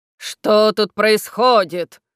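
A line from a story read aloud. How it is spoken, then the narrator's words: Menacing question. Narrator (Russian): спросил он грозно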